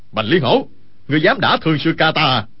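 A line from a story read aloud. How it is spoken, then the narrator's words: Loud angry shout. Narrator (Vietnamese): Hầu Thông Hải quát lớn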